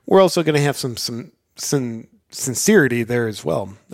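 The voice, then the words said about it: Halting, confused-sounding political impression. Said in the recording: “That's my Biden impression. I just forget how to talk for a minute.”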